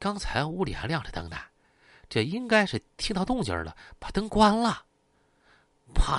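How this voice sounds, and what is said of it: Usual voice. Nothing is said of it.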